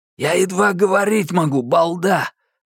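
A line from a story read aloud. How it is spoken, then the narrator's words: Hoarse bark. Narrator (Russian): рявкнул Минхо хрипло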